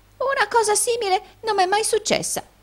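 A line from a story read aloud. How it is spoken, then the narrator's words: Exclaimed. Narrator (Italian): esclamò la signorina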